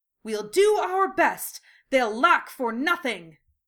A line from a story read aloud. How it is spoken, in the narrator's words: Lee exclaimed, fist raised in determination